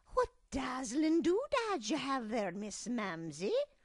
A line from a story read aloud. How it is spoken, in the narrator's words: she exclaimed